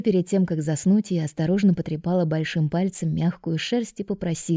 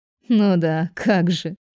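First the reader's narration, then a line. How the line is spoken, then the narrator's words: Giggling. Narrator (Russian): хихикнула я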